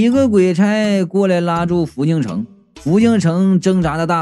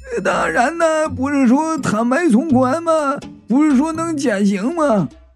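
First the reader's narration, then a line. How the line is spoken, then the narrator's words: Shouting, fading, echoing. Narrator (Chinese): 他边叫啊，边被鬼差拉走，那声音是越来越远，就剩那回音在大厅里响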